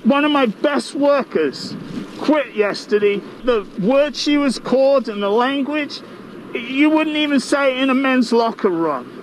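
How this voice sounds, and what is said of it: Distinctive fun regional accent. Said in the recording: “News involving a fun accent.”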